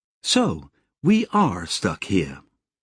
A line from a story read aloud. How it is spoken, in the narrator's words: Relatively calmly, Sally said